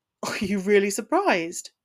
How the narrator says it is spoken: snorted

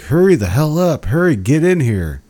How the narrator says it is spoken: just fucking yelling

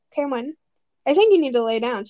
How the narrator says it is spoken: she chuckled nervously

